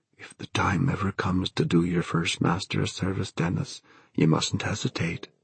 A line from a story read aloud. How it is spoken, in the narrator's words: the voice of his Da, his own dear dead Da, whispering